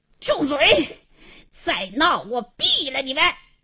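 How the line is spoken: Furious hoarse bark. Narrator (Chinese): 王经理 气得 嘶哑着嗓子喝道

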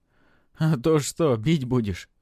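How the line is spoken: Laughing. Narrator (Russian): рассмеялся Жоржик

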